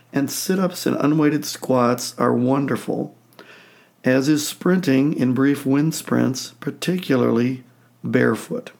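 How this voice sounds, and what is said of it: Hoarse, laryngitis-strained voice. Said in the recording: “apologize for my voice. I kind of have a case of laryngitis.”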